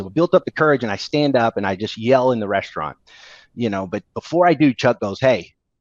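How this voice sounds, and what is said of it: Usual voice. Nothing is said of it.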